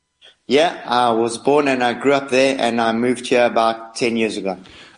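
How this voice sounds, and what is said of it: South African accent. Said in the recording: “I haven't lost my accent... you sound very South African”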